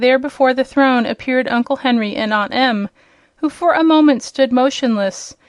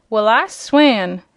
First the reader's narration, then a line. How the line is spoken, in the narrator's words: gurgled Aunt Em, in a hoarse, frightened voice